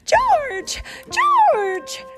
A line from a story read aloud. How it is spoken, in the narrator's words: shouted